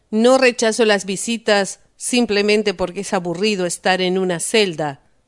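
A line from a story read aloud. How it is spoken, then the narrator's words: Cold. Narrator (Spanish): le dijo fríamente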